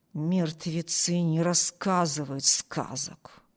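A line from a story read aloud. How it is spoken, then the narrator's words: Chilling mutter. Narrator (Russian): пробормотал Харпер таким тоном, что у Эми кровь застыла в жилах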